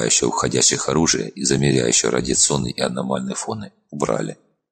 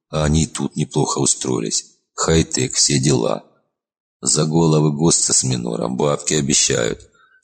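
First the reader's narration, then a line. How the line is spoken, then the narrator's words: Sad envious sigh. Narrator (Russian): с грустной завистью вздохнул Зеленый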